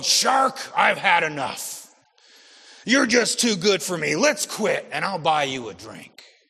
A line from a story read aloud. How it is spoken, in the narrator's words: the big man snarled